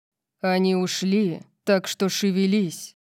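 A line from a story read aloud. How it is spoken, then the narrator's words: Sudden loud growl. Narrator (Russian): Прорычал он, заставив меня вздрогнуть от внезапной громкости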